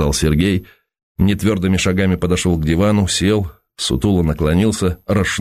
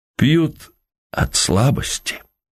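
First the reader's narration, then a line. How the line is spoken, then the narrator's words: Whispering. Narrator (Russian): заговорил он шепотом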